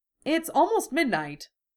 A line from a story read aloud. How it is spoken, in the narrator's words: George said cheerfully